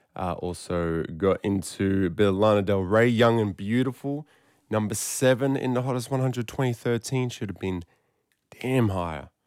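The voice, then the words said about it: Hoarse voice. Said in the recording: “You can kind of hear it in my voice... I was yelling, screaming. That's why I'm a bit hoarse”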